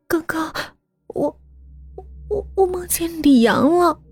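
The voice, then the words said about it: Whispered, quiet frightened voice. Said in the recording (Chinese): “小声说道”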